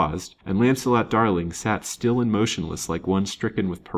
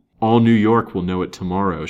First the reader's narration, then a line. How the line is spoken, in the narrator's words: said bitterly